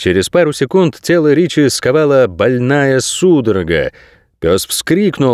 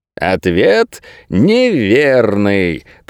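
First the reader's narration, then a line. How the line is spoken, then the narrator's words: Drawling. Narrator (Russian): протянул Картер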